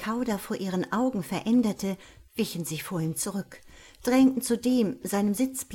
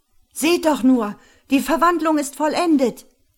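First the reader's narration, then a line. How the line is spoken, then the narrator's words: Shout from crowd. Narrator (German): schrie irgendjemand aus dem Menschenknäuel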